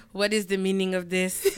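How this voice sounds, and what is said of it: Put-on Haitian accent. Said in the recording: “I'm not trying to do his accent ... We're Haitian.”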